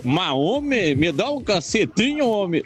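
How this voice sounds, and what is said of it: Put-on southern Brazilian accent. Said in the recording (Portuguese): “a gente ouve vários sotaques ... Gostei muito desse lá do Sul.”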